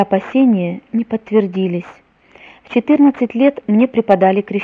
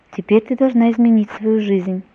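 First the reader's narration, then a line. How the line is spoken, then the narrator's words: Surprisingly calm. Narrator (Russian): На удивление мама спокойно сказала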